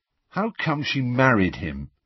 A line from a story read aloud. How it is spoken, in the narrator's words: Harry asked miserably